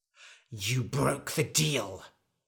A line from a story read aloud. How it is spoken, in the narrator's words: hissed the wizard